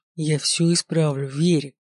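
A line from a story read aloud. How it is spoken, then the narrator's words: Growled. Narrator (Russian): прорычал я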